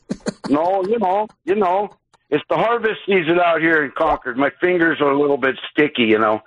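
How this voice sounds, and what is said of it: North Dakota accent. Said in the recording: “You sound like you have like a North Dakota accent”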